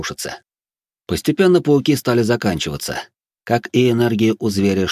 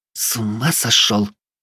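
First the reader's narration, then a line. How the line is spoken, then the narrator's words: Hissing. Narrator (Russian): зашипела Вилея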